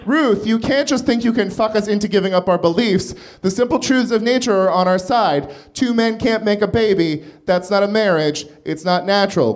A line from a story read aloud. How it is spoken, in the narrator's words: cried Scalia